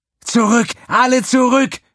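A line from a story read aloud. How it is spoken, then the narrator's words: Screamed. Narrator (German): schrie sie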